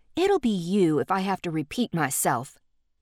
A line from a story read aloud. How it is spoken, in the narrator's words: Dee snapped back